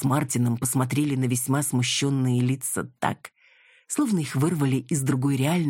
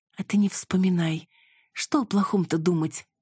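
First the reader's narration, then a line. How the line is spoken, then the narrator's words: Sighing. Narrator (Russian): вздохнула Цветкова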